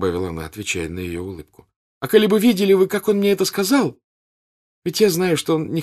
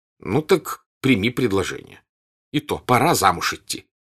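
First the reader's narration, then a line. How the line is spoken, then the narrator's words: Angry, mocking mother. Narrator (Russian): сердито и насмешливо сказала мать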